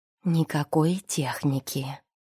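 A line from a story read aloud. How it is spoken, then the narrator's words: Whispered explanation. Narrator (Russian): шепотом поясняет Марина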